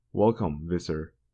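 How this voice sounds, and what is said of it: Very humble, deferential voice. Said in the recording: “in a very humble voice.”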